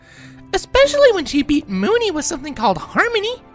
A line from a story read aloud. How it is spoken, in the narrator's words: Pinky said excitedly